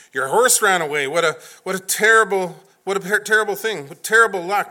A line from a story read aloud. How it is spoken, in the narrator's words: the neighbors exclaimed